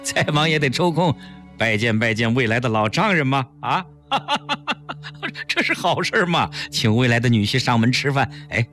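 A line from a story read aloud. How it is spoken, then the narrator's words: Laughing. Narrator (Chinese): 陈汉云笑着说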